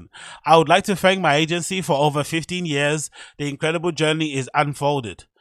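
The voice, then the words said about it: Put-on German accent. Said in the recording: “this is my German accent”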